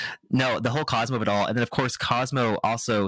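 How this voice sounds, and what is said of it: Usual voice. Nothing is said of it.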